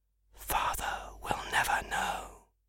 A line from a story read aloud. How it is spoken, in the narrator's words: he whispered